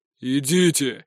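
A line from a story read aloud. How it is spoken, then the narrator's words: Barking. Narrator (Russian): рявкнул он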